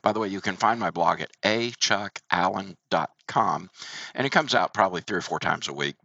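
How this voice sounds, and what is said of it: Sick-sounding voice. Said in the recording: “I apologize for my voice. I'm battling just a little bit of a flu”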